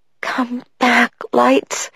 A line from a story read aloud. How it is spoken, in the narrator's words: pleaded